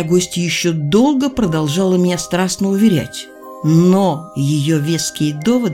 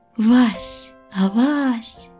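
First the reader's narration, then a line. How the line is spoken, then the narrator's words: Whispering. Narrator (Russian): прошептала моя гостья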